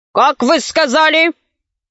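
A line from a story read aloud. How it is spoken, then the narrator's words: Unpleasant grumpy exclamation. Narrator (Russian): Воскликнул он неприятным сварливым голосом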